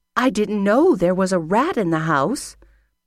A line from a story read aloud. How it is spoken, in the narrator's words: exclaimed his mother